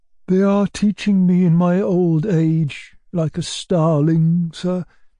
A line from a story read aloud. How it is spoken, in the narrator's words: Gavrila answered mournfully